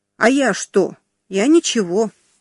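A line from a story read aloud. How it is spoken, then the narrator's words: Plain. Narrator (Russian): ответил Сергей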